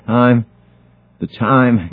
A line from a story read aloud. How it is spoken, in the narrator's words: gasped the older man